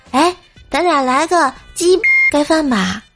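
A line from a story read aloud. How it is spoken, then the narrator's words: Very loud. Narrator (Chinese): 还特别大声的说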